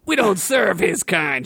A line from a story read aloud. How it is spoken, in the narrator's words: shouted the orc bartender